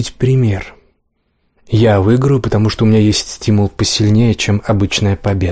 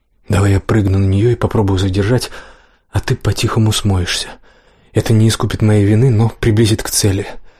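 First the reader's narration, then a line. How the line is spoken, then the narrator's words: Secretive whisper. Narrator (Russian): зашептал он, надеясь, что девушка не слышит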